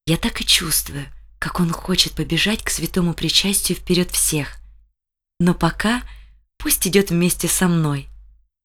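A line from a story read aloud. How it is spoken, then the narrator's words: Mother whispering. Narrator (Russian): мама прошептала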